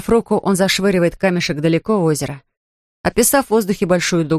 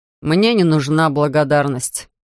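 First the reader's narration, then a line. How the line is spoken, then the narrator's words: Flat, expressionless voice. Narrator (Russian): говорит он ровным, невыразительным голосом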